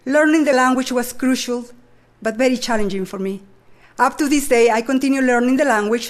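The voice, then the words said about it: Non-native English accent. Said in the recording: “as you can tell, I never lost my accent.”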